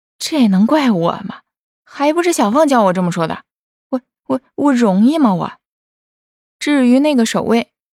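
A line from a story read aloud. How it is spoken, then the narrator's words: Inner grumbling mutter. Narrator (Chinese): 莫言只得心里嘀咕着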